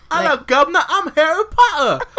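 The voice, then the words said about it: Weak put-on English accent. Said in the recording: “You have to do it in an English accent... I cannot maintain an English accent... do your best Harry Potter accent”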